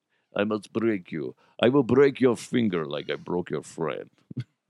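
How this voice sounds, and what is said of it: Weak put-on Russian accent. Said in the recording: “I don't have a good Russian accent”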